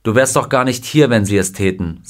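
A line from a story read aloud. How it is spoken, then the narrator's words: Plain. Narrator (German): sagte sein Freund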